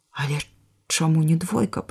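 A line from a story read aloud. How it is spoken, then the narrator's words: Whispered. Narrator (Belarusian): прашаптаў вяргейчык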